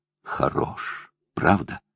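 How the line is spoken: Whisper. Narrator (Russian): прошептала она

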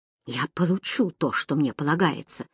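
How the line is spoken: Mutter. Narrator (Russian): пробормотал он

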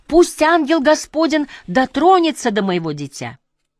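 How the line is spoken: Loud. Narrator (Russian): мистер Колдуэлл громко сказал

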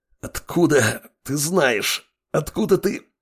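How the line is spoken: Hoarse through clenched teeth. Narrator (Russian): хрипел противник, скрипя зубами

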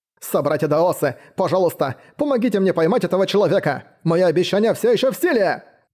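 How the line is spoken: Shouting while chasing. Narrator (Russian): Бросившись в погоню за Мэнхао, Сюань Дао Цзы прокричал

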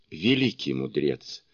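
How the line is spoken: Conciliatory tone. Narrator (Russian): заговорил он примирительным тоном

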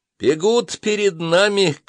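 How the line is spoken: Shouted. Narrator (Russian): крикнул мне Иванов

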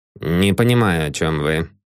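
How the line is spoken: Dry. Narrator (Russian): сухо ответил Яндрихин

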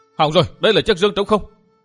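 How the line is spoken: Sudden cry. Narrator (Vietnamese): bỗng có kẻ kêu lên

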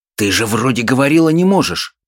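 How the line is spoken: Hiss. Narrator (Russian): прошипел Антоний

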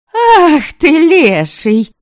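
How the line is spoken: Indignant old woman shouting. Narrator (Russian): Возмущенно кричала старая княгиня Чтислава

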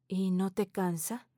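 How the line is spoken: Soft question. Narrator (Spanish): Teresa pregunta suavemente

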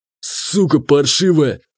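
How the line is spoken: Growling again. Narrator (Russian): вновь зарычал он

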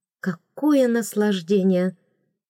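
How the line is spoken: Sigh. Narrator (Russian): вздохнула

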